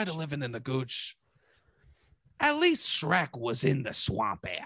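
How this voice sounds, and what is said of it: Usual voice. Nothing is said of it.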